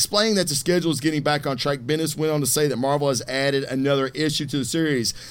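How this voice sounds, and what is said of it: Usual voice. Nothing is said of it.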